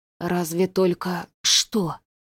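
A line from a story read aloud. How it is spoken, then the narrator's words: Whispered. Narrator (Russian): прошептал Василий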